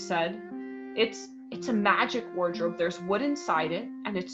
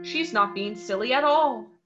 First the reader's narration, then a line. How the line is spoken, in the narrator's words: said Peter